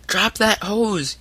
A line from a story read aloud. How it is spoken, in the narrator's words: yelled Tom in louder tones